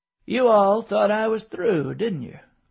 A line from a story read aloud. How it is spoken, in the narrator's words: David laughed with everyone else